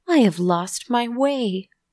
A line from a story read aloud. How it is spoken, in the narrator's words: our little hero cries